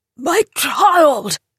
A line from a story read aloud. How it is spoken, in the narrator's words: thundered Harris